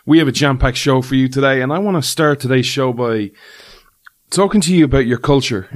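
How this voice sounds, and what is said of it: Irish accent. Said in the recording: “this Irish man ... the show where you come for the accent”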